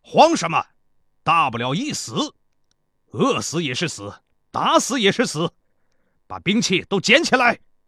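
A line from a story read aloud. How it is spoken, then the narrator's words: Loud shouting. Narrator (Chinese): 赵壮士高声喊道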